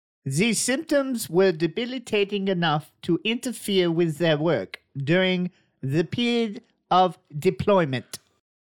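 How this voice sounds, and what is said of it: Put-on German accent. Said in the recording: “funny voice? ... Is that an all right German? ... Excellent.”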